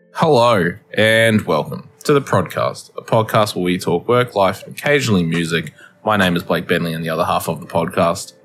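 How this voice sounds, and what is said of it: Flat monotone delivery. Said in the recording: “I was keeping that fucking monotone going”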